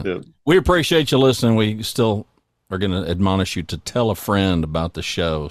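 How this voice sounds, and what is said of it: Southern Oklahoma American accent. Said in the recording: “I grew up with a little south all over me. ... In Oklahoma. ... Yeah, you can tell by the accent.”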